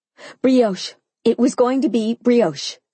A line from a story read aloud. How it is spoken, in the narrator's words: I answered quickly, my tone frantic